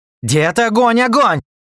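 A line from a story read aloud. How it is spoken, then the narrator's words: Yelling. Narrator (Russian): заорал я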